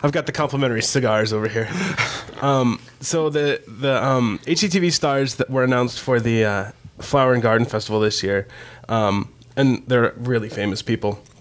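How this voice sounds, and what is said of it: Raspy, hoarse sick voice. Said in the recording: “my raspy Kathleen Turner voice. I'm sick. ... It's more Bonnie Tyler.”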